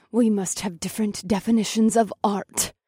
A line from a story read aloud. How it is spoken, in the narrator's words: I said through gritted teeth